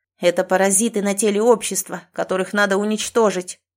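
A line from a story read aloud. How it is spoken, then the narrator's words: Ruler's scornful snort. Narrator (Russian): фыркнул властелин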